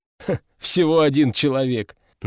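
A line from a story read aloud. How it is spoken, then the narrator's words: Mocking mimicry. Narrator (Russian): насмешливо передразнил меня овод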